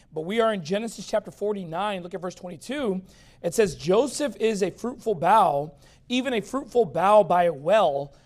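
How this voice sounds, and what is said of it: Slightly strained, failing voice. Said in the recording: “I am losing my voice a little bit, so if I crack or if I have to pop a cough drop”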